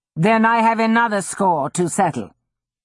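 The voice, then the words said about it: Male character with Italian accent. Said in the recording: “a man said in an Italian accent.”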